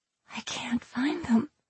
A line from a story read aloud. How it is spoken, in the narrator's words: I mumbled